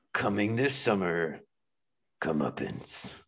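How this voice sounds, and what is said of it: Dramatic movie trailer narrator voice. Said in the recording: “movie trailer voice”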